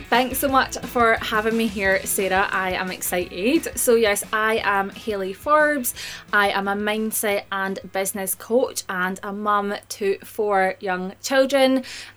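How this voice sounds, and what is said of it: Scottish accent. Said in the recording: “if you can't tell by the accent, I am up in Scotland.”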